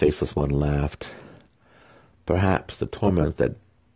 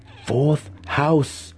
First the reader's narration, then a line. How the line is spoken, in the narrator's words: Alton spat